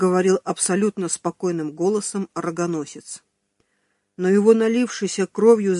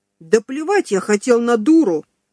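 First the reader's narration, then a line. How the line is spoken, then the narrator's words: Furious yelling crescendo. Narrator (Russian): завопил обманутый муж, выдав такое крещендо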